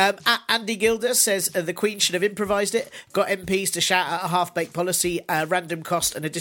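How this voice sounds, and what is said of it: Usual voice. Nothing is said of it.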